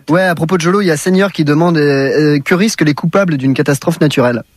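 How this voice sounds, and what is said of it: Northern French accent. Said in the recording (French): “T'es du Nord, t'as un accent, non? ... Le Nord de Lille.”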